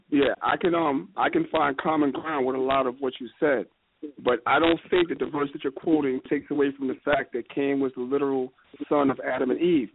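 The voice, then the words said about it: Hoarse voice. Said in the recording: “I'm a little hoarse, so if I'm clearing my throat, pardon me.”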